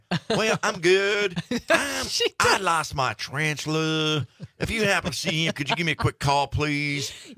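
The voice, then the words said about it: Put-on southern accent imitating a neighbor. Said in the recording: “she's got the greatest little accent ... that wasn't the greatest little accent ... You sound like Harry. You belong on an animated series on Fox ... playing a southern guy ... A beloved southern neighbor”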